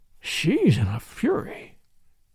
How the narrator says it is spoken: he murmured

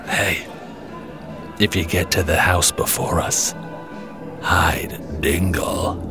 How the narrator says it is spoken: whispers in my ear

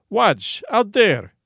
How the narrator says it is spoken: exclaimed the general

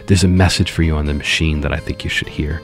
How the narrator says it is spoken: whispered to me and said

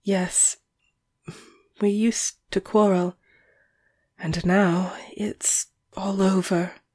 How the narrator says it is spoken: she said, brokenly

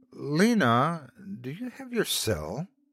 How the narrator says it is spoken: I asked hesitantly

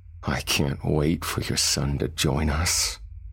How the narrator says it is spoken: Lucifer said, chuckling

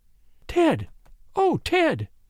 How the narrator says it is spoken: she gasped

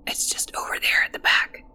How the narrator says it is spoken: whispered the boy

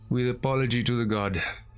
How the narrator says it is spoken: he sighed

